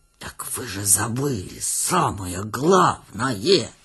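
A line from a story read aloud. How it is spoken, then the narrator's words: Tragic whistling whisper. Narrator (Russian): трагическим шепотом свистел он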